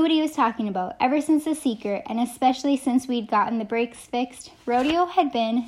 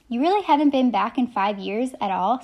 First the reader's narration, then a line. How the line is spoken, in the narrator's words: Salvador asked